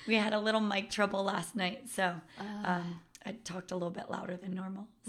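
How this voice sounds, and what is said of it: Slightly cracky, strained voice. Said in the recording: “my voice is a little bit cracky ... It's from teaching”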